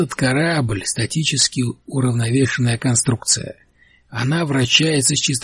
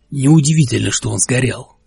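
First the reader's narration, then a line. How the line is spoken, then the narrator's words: Sharp. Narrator (Russian): резко сказал капитан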